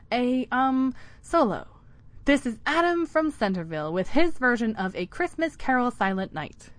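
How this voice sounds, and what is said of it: Announcing director voice. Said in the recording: “she announced in her director voice”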